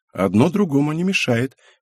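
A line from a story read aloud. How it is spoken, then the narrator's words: Soft. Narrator (Russian): мягко сказала Анеко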